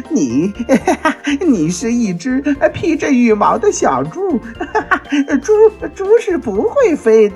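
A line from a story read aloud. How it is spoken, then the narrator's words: Laughing loudly. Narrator (Chinese): 猴子大笑着说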